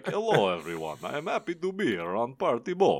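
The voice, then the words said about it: Dracula accent. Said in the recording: “accent in my head. I don't read him with the accent.”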